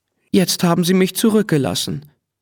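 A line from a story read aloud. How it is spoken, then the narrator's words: Sad thought. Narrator (German): dachte er traurig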